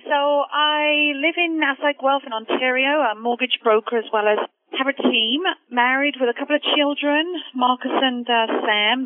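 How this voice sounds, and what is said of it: British accent. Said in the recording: “you probably tell from the accent, originally from the UK”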